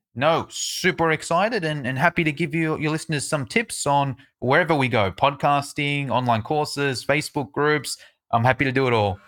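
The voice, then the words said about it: Australian accent. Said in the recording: “that is one kick butt Australian accent”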